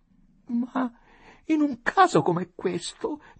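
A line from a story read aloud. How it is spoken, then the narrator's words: Moaning. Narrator (Italian): gemette donna Adelaide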